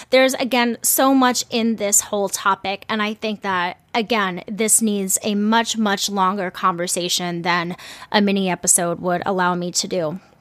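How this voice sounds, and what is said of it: Strained, fading voice. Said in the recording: “I am like losing my voice after that. I barely took a breath”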